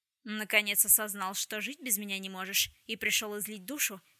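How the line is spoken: Mocking. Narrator (Russian): насмешливо изрек Вулси Скотт

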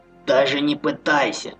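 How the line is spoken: Menacing hiss. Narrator (Russian): угрожающе прошипел полутруп

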